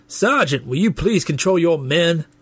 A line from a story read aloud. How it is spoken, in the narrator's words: The major looked annoyed and shouted